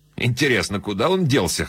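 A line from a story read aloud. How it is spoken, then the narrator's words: Snorting hum. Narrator (Russian): хмыкнул Коллер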